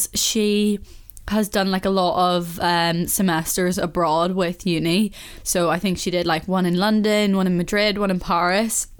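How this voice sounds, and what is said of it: Belfast accent. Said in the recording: “my accent ... someone else from Belfast ... you do go a bit more into your accent”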